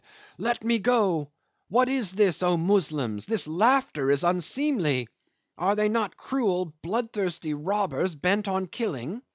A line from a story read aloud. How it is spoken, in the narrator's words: she struggled and cried